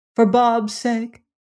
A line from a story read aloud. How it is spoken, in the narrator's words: pleaded the old lady timidly